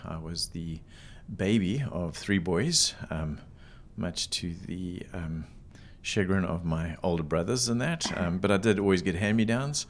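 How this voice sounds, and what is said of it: South African accent. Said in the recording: “You can tell by the accent, it's not local. So I was an import from South Africa.”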